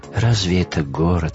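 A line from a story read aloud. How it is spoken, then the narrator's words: Queen sighing. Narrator (Russian): вздохнула царица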